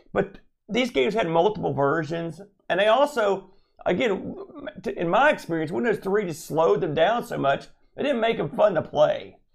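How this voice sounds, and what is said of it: Strained, fading voice. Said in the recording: “losing my voice rapidly ... Yeah, I've noticed you're going downhill. ... so I can recover my voice. Because clearly I've run out of steam.”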